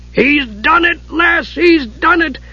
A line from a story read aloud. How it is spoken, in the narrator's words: Dugan shrieked, dancing up and down